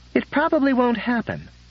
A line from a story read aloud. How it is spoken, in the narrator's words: Paulson said soothingly